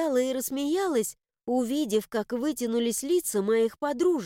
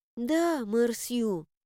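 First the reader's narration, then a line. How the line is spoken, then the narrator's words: Sighing. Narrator (Russian): вздохнула Делиша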